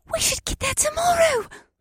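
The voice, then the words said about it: Quiet excited squeal. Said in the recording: “squealed in a quiet voice full of excitement”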